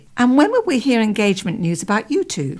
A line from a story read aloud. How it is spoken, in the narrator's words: Pam said brightly